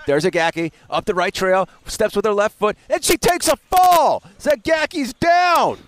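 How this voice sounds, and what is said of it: Weak Joe Zagacki play-by-play impression. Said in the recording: “You can do a better Josie impression than that, though.”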